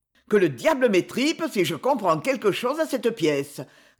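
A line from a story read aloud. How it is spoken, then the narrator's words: Grumbling. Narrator (French): grogna Gros-Guillaume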